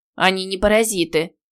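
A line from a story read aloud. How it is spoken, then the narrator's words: Cold, curt retort. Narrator (Russian): холодно отрезала Теа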